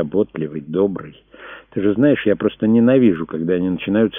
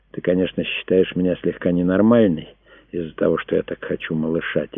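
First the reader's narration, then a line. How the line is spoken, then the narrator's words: Quiet question. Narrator (Russian): тихо спросила она Энди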